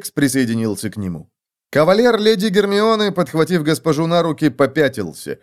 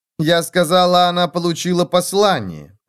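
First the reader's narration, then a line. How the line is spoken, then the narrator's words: Plain. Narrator (Russian): ответила Гермиона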